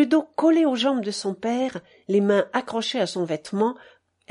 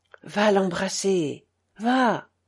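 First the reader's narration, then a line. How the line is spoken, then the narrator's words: Voice hoarse with emotion. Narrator (French): en ajoutant, d'une voix rauque d'émotion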